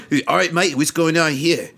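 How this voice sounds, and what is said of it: Put-on Australian accent. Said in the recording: “he gets to use his Australian accent, which rocks”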